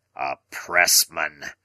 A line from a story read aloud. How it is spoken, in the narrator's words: he growled